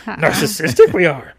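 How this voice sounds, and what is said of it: Yoda character impression. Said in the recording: “my Yoda impression”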